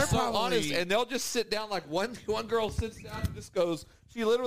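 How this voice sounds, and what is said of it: Usual voice. Nothing is said of it.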